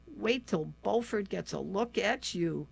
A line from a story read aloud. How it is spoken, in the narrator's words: sighed